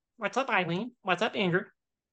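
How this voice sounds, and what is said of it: Bugs Bunny cartoon voice impression. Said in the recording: “impersonations ... I can do Bugs Bunny real quick. ... That's really good.”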